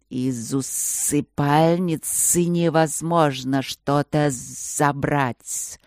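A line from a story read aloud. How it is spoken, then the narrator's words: Thoughtful spirit's drone. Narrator (Russian): задумчиво прогудел один из духов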